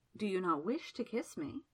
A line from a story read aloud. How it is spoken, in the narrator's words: she murmured